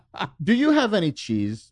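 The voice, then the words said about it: Steve Urkel character voice impression. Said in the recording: “my Steve Urkel impression”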